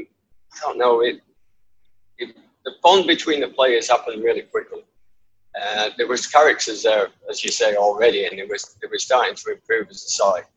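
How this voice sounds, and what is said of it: Northern English accent. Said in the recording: “I've got a proper northern accent, as you can tell”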